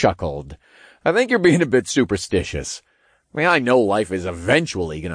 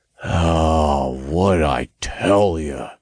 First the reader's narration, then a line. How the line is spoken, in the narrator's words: Todd grumbled